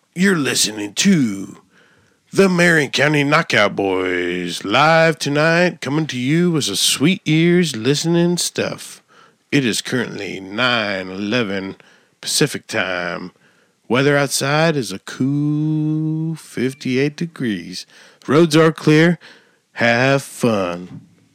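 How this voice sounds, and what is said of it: Radio announcer voice. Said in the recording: “let me do my radio voice ... That was pretty good. Yeah. That wasn't bad.”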